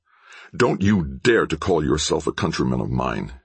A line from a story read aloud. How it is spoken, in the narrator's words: he growled